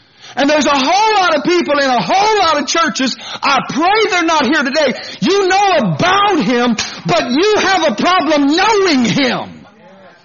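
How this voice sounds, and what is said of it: Yelling, loud preaching. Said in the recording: “Why are you yelling?”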